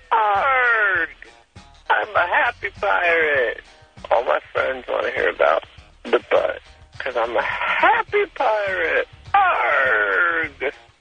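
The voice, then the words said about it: Drunken pirate character voice. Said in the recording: “Talk Like a Drunk Pirate Day”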